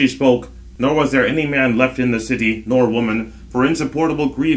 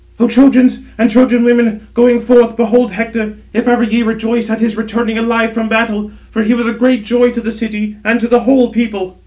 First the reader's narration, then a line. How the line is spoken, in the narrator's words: she shrieked and cried aloud throughout the whole city